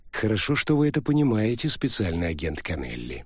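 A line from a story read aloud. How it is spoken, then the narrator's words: Soft reply. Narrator (Russian): мягко ответил орк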